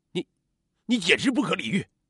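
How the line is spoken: Angry hurt shouting. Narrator (Chinese): 刘军只觉既心寒又生气，冲着电话那端大喊

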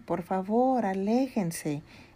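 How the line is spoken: Robot exclaiming. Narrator (Spanish): exclamó la robot

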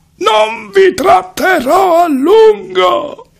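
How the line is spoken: Shouting. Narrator (Italian): gridò

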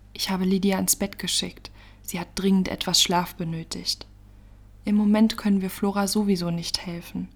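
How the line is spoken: Sighing. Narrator (German): seufzte sie

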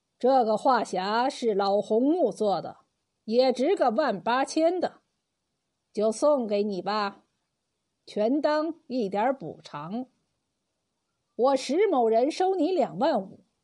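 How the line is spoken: Calm, indifferent. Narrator (Chinese): 石怀三淡淡的说

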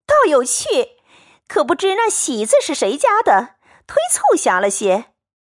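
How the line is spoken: Crowd laughing. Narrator (Chinese): 众人拍手轰然一笑，说

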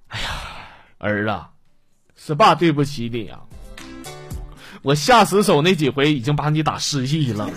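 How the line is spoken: Sighing lament. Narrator (Chinese): 他爸感叹了

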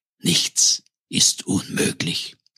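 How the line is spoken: Whisper. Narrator (German): flüsterte Leone

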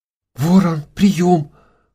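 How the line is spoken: Trembling babble. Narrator (Russian): дрожащим голосом пролепетала Яна

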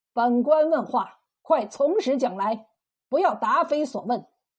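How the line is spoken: Cold stern shout. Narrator (Chinese): 耿县令冷冷的喝道

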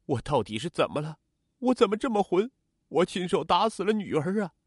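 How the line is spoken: Bitter sobbing. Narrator (Chinese): 曾国华抱头痛哭

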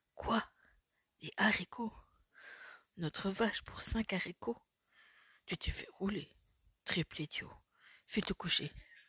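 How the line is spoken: Mother exclaiming. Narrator (French): s'écria la mère

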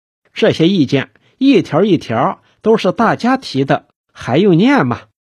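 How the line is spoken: Plain. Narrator (Chinese): 金花 道

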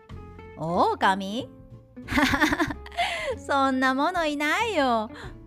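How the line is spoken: Laughing answer. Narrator (Japanese): 少年は笑いながら答えるのでした

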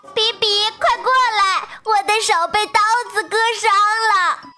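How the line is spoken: Crying out. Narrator (Chinese): 小野鸡也叫着

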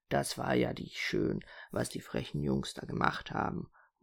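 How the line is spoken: Willow tree murmuring. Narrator (German): murmelte die Weide

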